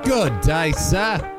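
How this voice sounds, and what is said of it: Attempted Australian accent. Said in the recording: “I got to put my voice in the back of my throat. It's not working. I don't sound Aussie. ... Trying to do an Australian accent here.”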